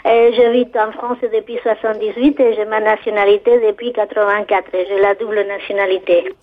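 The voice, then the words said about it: Spanish accent speaking French. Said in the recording (French): “je suis d'origine espagnole... J'ai un accent qui a du mal à partir parce que je suis arrivée à 26 ans”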